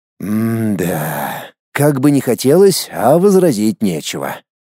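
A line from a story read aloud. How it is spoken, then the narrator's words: Heavy sigh. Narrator (Russian): тяжело вздохнул я в ответ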